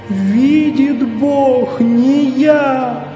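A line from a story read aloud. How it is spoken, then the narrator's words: Sobbing repeated plea. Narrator (Russian): повторял, всхлипывая, бедняк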